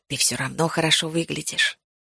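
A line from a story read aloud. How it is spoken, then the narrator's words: Quiet addition. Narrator (Russian): тихо добавил он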